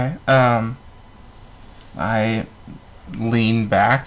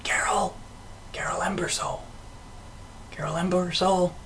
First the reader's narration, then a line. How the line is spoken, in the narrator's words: someone whispering